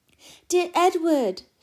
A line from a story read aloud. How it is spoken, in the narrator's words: she cried